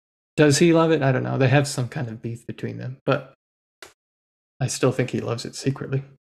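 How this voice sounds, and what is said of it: Usual voice. Nothing is said of it.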